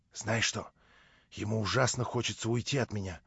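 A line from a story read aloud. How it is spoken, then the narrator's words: Hasty whisper. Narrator (Russian): шепнула мне наскоро Наташа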